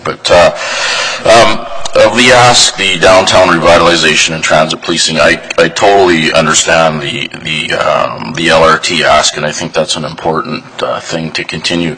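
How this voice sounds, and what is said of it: Hoarse voice from a cold. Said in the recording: “I apologize for my voice. It wasn't because of yelling at the Oilers again last night. It was the budget cold, I think.”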